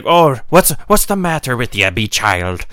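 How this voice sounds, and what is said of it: Put-on Irish accent. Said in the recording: “I'm taking out my Irish accent.”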